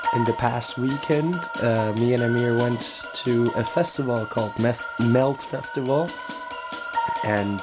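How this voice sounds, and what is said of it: Hoarse, nearly lost voice. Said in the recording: “my voice is so gone ... getting sick”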